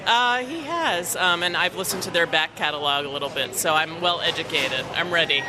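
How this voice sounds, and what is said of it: New York accent. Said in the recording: “you've got a bit of an accent as well. Where are you from? ... I'm from New York.”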